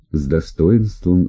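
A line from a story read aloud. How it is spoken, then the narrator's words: Plain. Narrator (Russian): сказал слуга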